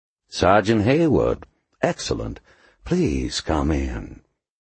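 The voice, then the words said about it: Smooth Southern drawl. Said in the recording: “the accent, the bourbon and buttermilk voice”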